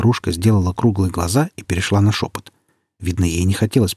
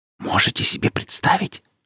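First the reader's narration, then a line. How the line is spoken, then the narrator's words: Old woman's whisper. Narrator (Russian): шептала старушка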